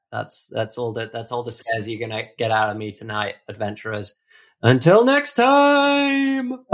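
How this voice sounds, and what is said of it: Spooky ghost voice. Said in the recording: “doing the ghost voice”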